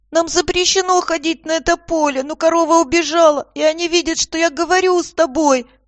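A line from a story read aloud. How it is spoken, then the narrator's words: Terrified child's squeak. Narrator (Russian): Мальчишка, широко раскрытыми от ужаса глазами пропищал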